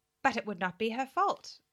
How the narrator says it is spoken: I cried, with rising indignation

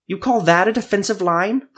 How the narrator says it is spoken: Proltir spat

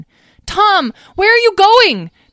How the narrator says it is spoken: Talora screamed

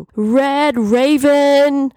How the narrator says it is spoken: someone shouted from outside

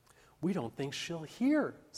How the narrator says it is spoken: said Mary

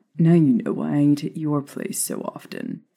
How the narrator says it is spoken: Remus muttered unapologetically

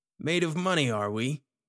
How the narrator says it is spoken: the tall one taunted

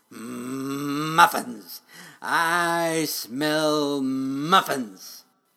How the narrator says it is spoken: rumbled

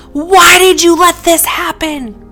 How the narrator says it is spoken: With a bitter tone, in anger, yelled

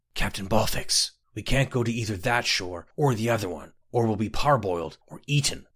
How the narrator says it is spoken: Scotty whispered

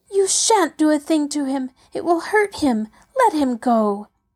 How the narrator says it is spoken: Heidi cried angrily

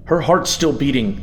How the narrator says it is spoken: the man shouted angrily

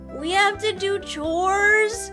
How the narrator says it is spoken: Sam groaned

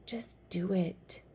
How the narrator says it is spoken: whispered Somkit

